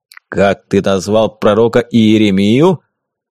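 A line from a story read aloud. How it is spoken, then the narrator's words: Booming voice from behind. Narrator (Russian): Прогудел голос сзади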